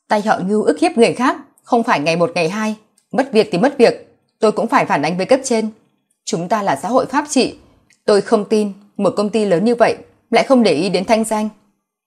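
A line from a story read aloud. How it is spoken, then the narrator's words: Raised, forced calm. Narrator (Vietnamese): Tô Mạt cố gắng trấn tĩnh, cất cao giọng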